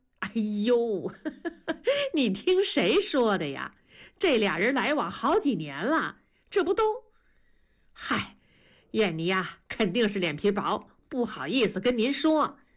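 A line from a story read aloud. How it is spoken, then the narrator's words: Beaming, laughing. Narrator (Chinese): 刘母笑得像一朵花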